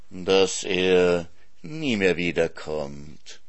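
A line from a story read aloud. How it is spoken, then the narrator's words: Purring. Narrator (German): schnurrte der Fuchs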